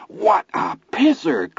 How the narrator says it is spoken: Chris exclaimed happily

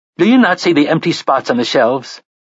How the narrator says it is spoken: asked indignantly

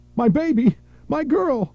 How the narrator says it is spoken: Sharon ran, screaming

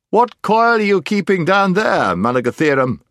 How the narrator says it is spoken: it shouted

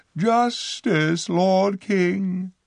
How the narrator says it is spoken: cried

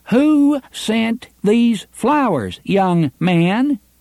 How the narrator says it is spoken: shouting directly into his face, she asked

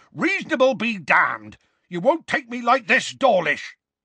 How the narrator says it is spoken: Hagrid roared

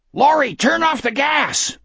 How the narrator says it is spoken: one of the customers screamed

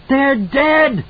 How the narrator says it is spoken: Danny screamed in hysterical triumph

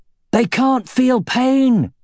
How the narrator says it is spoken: he shouted, even as he frantically blocked swords from three different directions

